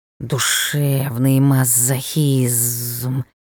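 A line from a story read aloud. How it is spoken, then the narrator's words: Displeased hiss. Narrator (Russian): Недовольно шипел ёж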